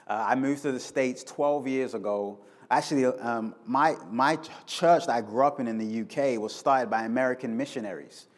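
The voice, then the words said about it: London English accent. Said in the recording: “You guys are probably picking up an accent ... I'm originally from London.”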